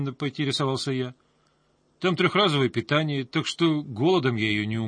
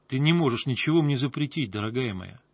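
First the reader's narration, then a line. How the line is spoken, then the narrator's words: Calm, confident. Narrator (Russian): спокойно ответил я, понимая, что этот бой я уже выиграл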